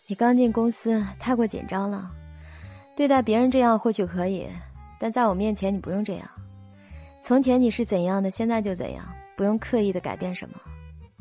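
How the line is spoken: Sighing. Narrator (Chinese): 肖九九叹了口气

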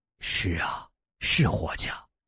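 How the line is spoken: Sighing. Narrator (Chinese): 外公不由叹了口气

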